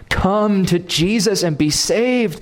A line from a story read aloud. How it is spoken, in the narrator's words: a preacher plead, maybe even with tears in his eyes